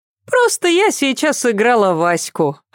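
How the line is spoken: Laughing explanation. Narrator (Russian): объяснила Катя, тоже смеясь

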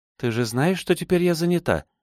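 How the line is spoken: Soft smiling voice. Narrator (Russian): мягко улыбнулась Синон

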